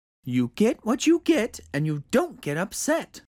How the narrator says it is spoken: she said

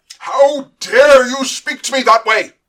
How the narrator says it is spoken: howled

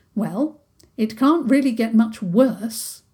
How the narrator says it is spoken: Princess Isabel said firmly

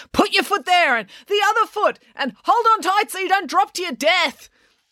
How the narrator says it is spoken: April screaming instructions at him

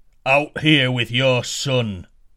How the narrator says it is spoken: roared the giant

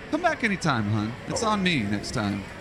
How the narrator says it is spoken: she chuckles a little bit, and says

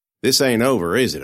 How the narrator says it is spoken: I asked

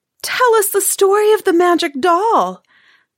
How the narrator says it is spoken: begged Marusia

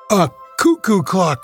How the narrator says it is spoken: Doris cried

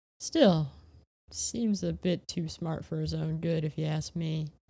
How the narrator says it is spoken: he sighed

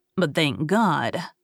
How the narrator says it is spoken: muttered in a low tone

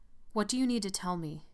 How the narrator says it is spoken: I asked

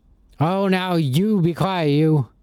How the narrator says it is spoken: Cutlass loudly shot back at nothing in particular

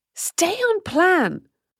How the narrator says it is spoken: the strange voice howled

